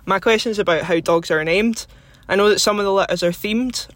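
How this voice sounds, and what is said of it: Scottish accent. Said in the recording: “I love your accent. Thanks for listening all the way from Scotland”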